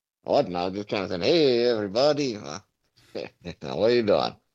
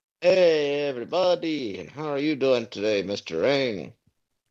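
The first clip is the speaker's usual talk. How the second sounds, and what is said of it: Speaking in a put-on accent. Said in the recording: “Why are you speaking in an accent?”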